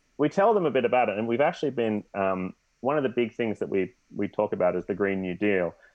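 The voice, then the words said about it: Australian accent. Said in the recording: “someone with an Australian accent”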